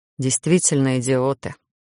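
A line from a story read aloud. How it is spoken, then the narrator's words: Muffled grumble into hair. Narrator (Russian): буркнул куда-то в волосы Гарон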